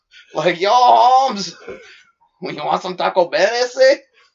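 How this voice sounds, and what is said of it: Put-on Mexican accent. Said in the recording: “He's trying to do it in his little Mexican voice.”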